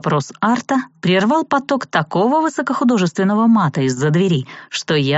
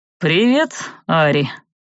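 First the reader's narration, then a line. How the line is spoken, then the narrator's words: Snorting ghoul. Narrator (Russian): хмыкнул упырь Арт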